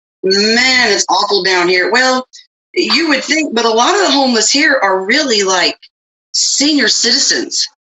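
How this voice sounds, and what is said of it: Southern US accent. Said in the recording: “You still got your southern accent.”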